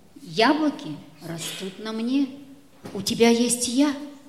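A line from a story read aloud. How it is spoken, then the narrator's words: Whispering. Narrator (Russian): прошептала яблоня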